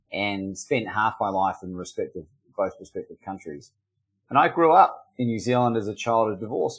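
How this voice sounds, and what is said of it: Mixed New Zealand and Australian accent. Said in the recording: “I grew up in New Zealand and I'm half Australian. So if you're confused by my accent”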